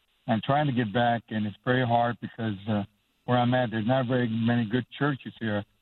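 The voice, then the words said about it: Texas accent. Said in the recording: “I'm back originally from Texas, as you probably pick up my accent”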